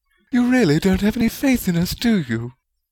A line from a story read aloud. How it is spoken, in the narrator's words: Rowena said sweetly